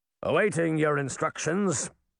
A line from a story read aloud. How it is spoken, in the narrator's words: it said in a gruff, almost salty tone